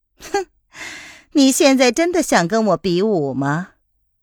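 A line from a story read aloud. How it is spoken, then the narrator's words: Faint smile, calm. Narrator (Chinese): 叶来夫人淡淡的一笑，然后说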